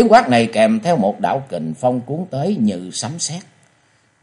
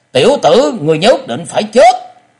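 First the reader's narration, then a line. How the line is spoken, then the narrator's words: Piercing harsh shout. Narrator (Vietnamese): một tiếng quát chát chúa vang lên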